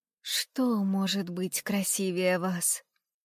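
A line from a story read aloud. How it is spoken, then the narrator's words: Whispered. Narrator (Russian): шептал розам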